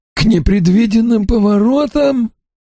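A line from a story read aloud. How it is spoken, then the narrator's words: Hoarse exclamation, coughing. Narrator (Russian): Хрипло воскликнул Чилдермас и закашлялся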